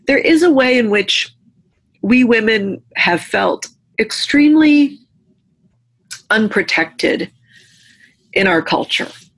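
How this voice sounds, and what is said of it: Emotional voice. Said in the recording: “I'm getting emotional talking about this right now”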